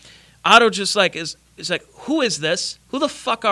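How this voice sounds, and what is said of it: Usual voice. Nothing is said of it.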